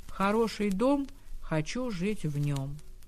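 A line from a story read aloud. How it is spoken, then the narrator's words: Calm, slightly monotone. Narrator (Russian): Марина Ивановна сказала спокойно и немного монотонно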